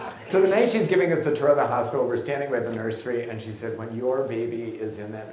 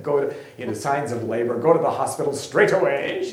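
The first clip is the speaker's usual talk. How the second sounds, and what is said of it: Imitated British accent. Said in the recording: “British, hilarious, had this great accent.”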